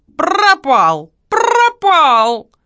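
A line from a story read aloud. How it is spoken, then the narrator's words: Parrot's mocking shout. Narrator (Russian): Попугай издевательским тоном выкрикнул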